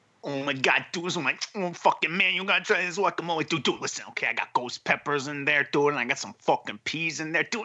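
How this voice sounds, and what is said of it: Impression of Jose Mangan. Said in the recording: “some of your Jose Mangan impression”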